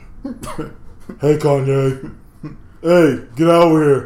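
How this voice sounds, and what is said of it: Imitates another person in deep voice. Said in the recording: “I just picture her having a deep voice.”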